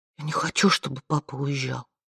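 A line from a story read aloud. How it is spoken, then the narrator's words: Whisper. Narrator (Russian): прошептала она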